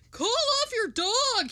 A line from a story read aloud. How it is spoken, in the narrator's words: he shouted in terror